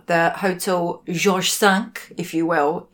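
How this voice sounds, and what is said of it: Put-on French accent. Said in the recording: “your French accent is—it's got a hint of northern Paris”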